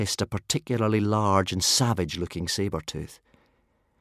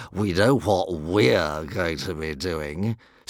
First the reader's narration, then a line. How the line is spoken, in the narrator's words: sneered the driver